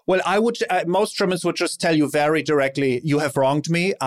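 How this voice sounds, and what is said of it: German accent. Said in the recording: “I love when you say it. See, it's different. The German accent”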